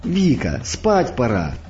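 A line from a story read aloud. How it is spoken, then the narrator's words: Sharp, happily excited. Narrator (Russian): прикрикнула на нее мать, хотя и сама она находилась в каком-то радостно возбужденном состоянии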